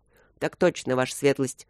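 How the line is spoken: Deep bass voice. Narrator (Russian): пробасил один

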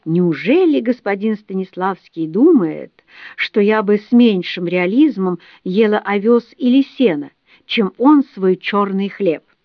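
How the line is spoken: Grandiloquent exclamation. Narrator (Russian): кобылы, и та пафосно воскликнула

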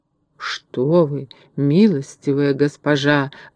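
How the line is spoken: Pleading. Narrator (Russian): взмолился Касталью

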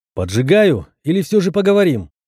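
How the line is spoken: Shouting again. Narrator (Russian): крикнул я еще раз

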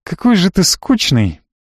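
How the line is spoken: Sad sigh. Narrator (Russian): грустно вздохнула девушка

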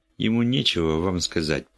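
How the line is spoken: Perfectly calm voice. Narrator (Russian): промолвила Стелла Флеминг совершенно спокойным голосом

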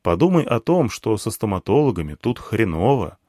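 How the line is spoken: Calm. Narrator (Russian): сказал я спокойно

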